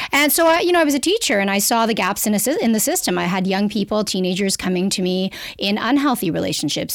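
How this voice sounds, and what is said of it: Canadian accent. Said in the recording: “I'm a Canadian. You'll hear from my accent because I say clitoris instead of clitoris.”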